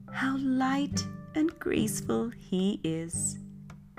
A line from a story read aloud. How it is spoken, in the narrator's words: the geese in admiration, exclaiming